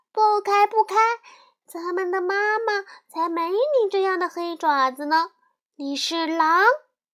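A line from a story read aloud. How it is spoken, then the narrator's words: Alarmed cries. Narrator (Chinese): 羊儿们一见就叫起来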